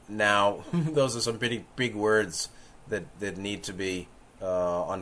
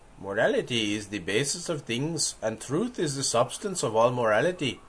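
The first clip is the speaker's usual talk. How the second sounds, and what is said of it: Put-on accent imitating Mahatma Gandhi. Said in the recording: “Mahatma Gandhi, Gandhiji, said ... But not quite with that accent.”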